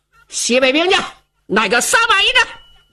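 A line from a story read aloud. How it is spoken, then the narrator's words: Loud shouting. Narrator (Chinese): 白苗高声喊嚷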